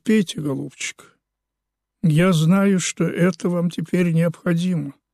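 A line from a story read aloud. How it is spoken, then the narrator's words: Gentle, kind. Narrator (Russian): Савинов сказал ласково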